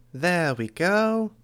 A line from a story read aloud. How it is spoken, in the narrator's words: Gray Boy said, his voice high as he spoke in the video